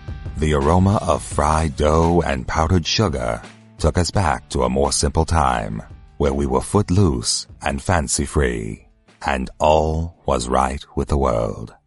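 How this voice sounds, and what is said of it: Creepy, dramatic mixed-accent narrator voice. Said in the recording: “What was that accent? Creepy. ... But he's got dramatic. ... are we going European? ... it reminded me of Vincent Price. ... I think he was trying to invoke Morgan Freeman. ... I think he mixed up a few voices there”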